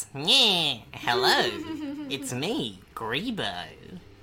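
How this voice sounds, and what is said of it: Goblin character voice. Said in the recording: “They also have a good goblin voice. ... This is a great regular goblin voice ... whenever I have a goblin character, I just kind of talk like this”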